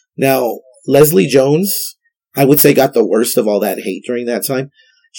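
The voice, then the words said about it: Sick-sounding voice. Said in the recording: “I can't do a Trump voice because I'm sick”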